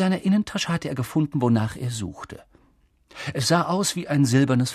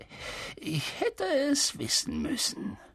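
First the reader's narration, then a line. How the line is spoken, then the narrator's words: Amused chuckling murmur. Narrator (German): Er gluckste vergnügt und murmelte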